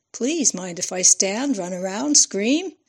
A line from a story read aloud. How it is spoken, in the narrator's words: Fran laughed